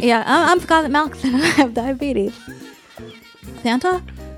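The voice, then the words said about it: Cartoon boy voice. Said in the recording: “you do a boy voice? A boy cartoon voice?”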